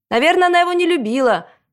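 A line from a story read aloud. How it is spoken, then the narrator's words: Shouted from another room. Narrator (Russian): крикнул из комнаты Макс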